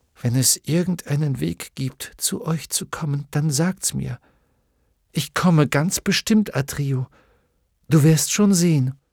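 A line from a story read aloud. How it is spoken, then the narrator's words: Quiet. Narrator (German): sagte er leise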